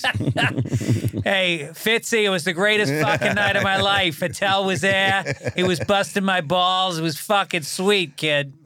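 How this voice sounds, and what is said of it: Put-on Boston accent. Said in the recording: “Learn your Boston accent? ... No one speaks like that there now.”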